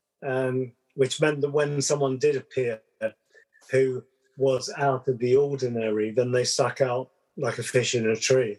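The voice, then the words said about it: Southern English accent. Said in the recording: “my accent being very Southern English”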